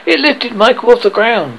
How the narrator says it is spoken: cried

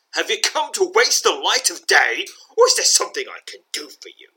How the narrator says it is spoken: She snaps

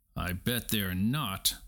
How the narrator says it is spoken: said the cat

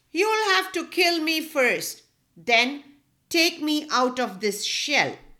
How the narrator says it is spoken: the turtle yelled out

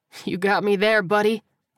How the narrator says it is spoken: he groaned and sighed

